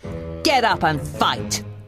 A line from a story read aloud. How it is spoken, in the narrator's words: Gaston taunted